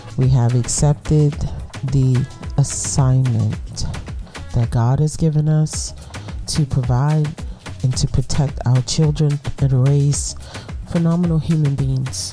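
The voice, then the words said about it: Stuffy, congested voice. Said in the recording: “I sound stuffy or like if my speech is off”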